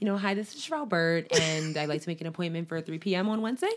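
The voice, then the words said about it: Overly professional phone voice. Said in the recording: “you might have your overly professional voice”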